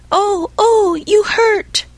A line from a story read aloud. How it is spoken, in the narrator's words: cried the same faraway little voice